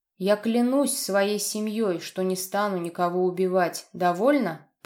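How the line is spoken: Near growl, over phone. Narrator (Russian): почти прорычал в трубку

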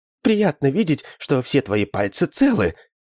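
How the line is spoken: Exclaiming. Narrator (Russian): воскликнула Мэг

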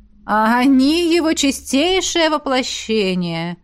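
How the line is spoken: Drawl. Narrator (Russian): протянула ректор

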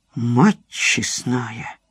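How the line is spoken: Slow. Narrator (Russian): Осип медленно произнес

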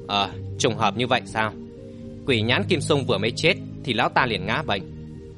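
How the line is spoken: Surprised muttering. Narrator (Vietnamese): Hoắc Vũ Hoàn ồ lên một tiếng lẩm bẩm

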